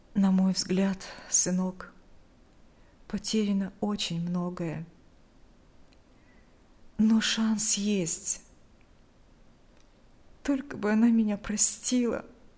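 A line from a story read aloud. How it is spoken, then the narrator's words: Sigh. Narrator (Russian): Вздохнул Игорь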